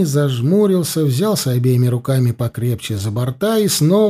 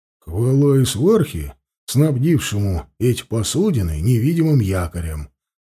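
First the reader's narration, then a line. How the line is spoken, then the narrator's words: Grumbling under breath. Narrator (Russian): проворчал под нос Ауранг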